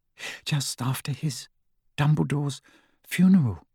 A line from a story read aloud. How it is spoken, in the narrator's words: said Hermione in an even smaller voice